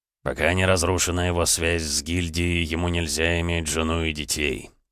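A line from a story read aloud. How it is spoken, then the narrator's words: Said through teeth. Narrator (Russian): процедил Эдуард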